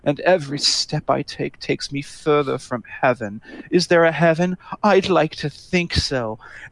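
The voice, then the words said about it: Dramatic, gloomy imitation of a singer. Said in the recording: “he has this very dramatic voice.”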